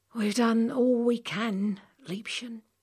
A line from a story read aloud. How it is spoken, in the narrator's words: said Hawksbill wearily